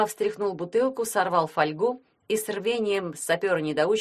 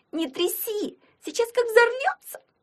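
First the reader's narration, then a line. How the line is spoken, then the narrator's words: Girl's shriek. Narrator (Russian): взвизгнула Нинка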